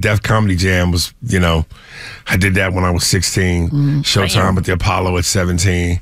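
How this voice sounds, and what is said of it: Strong New York accent. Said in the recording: “This man got a New distinct York. Voice. And that New York accent is strong. ... Ain't it East Coast?”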